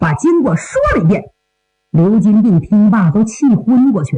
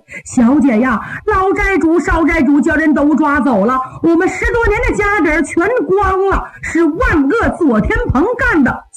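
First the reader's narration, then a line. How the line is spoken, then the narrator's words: Crying out. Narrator (Chinese): 丫鬟一阵呼喊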